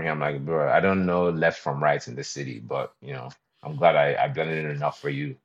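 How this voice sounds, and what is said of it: Canadian-sounding accent. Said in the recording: “I do a decent Canadian accent”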